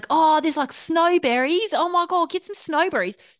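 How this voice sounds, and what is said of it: Unpolished New Zealand accent, sounds Australian. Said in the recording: “I haven't workshopped my New Zealand accent. So it's going to sound very Australian”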